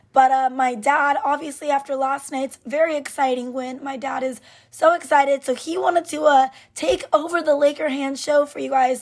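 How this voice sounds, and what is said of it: Sick, strained voice. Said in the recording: “is under the weather today ... As you can tell from my voice, I literally can't talk.”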